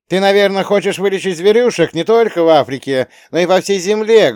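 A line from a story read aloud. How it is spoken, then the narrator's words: Loud shout. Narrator (Russian): громко выкрикнул Антон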